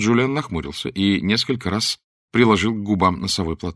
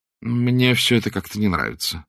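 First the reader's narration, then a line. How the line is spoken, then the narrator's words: Gloomy. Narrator (Russian): сказал он уныло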